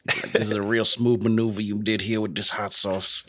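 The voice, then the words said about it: Put-on Creole accent. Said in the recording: “That's my Creole accent. I'm sorry. It's probably not good and or offensive.”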